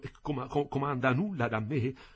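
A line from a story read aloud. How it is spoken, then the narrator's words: Trembling stammer. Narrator (Italian): balbettai tremando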